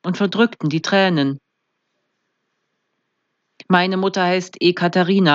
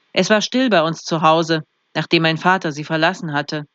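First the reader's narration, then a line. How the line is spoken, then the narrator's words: Flat, toneless. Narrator (German): sagte Hanka tonlos zu Mark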